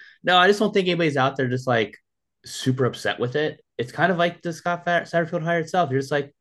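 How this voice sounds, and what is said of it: Usual voice. Nothing is said of it.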